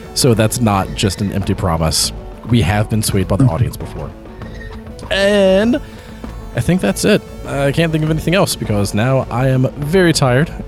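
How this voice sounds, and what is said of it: Tired, strained voice giving out. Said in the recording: “as you could probably tell, my voice is starting to give out even more than it was at the beginning of the episode”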